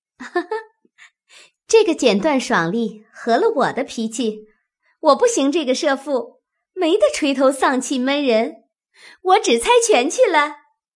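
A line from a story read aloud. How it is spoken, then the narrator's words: Laughing. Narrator (Chinese): 湘云先笑着说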